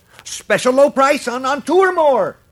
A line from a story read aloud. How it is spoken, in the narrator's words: shouted the slicker, now genuinely alarmed